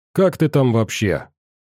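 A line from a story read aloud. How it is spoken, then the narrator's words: Stern report. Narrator (Russian): строго отрапортовал Ваня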